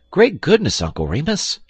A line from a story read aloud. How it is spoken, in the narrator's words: exclaimed the little boy in open-eyed wonder